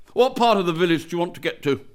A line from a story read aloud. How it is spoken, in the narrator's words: said curtly